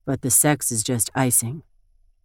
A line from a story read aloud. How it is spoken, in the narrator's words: Logan says softly